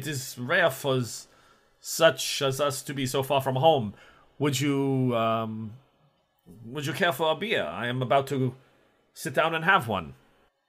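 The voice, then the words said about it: Put-on German or Austrian accent. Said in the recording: “You sound German to me... Oh, Austrian, right?”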